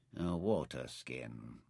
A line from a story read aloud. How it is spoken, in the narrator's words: he murmured